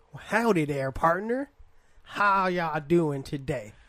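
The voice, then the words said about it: Poor put-on Western cowboy accent. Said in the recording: “I'm so bad at doing it... a Western accent is you got to speak from the hips”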